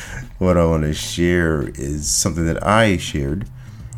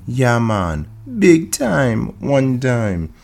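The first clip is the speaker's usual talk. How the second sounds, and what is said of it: Put-on accent. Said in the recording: “that's all the accents you'll get from me for the rest of the week”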